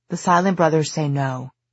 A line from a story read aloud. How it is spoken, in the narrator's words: Diana said firmly